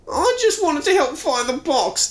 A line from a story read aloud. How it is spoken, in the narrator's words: Todd whines